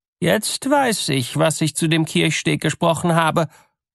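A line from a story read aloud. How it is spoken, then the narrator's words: Bride calling out. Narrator (German): rief die Braut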